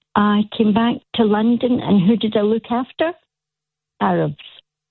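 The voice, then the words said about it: Scottish Glasgow accent. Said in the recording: “I've got a Scottish accent ... A Glasgow accent.”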